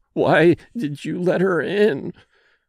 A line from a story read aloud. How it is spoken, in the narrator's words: moaned